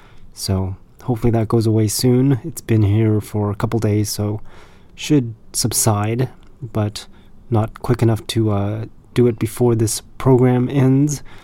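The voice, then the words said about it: Congested, nasal-sounding voice. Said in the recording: “I've got like this sinus congestion or something like that, so if you hear some sinus congestion sounding voice, then that's probably what it is ... you'll hear a little bit of that”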